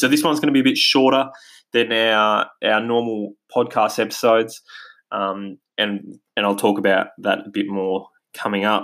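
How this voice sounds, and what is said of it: Australian accent. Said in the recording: “as you can probably hear from my accent, we're based here in Australia”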